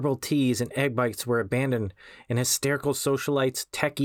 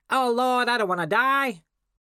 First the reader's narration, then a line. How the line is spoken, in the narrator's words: a frenzy of shrieks and squeals, unmanly bellows